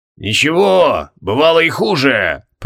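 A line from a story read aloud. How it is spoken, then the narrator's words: Booming voice. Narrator (Russian): прогремел лот Галкаран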